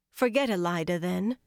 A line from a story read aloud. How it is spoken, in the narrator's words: Saritha said